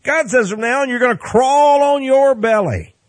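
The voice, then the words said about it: Texas accent. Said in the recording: “that's a little Texas accent for God there”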